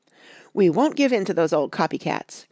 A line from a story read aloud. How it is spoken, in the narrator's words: cried Betsy